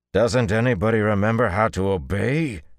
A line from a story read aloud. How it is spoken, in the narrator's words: thundered